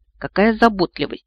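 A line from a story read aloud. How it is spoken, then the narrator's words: Ironic snort. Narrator (Russian): фыркнула со всей иронией, на какую была способна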